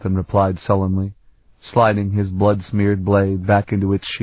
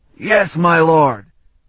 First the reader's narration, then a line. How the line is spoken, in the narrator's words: Colton shouted it this time